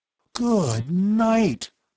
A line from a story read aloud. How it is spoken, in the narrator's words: Bud gasped in a stunned voice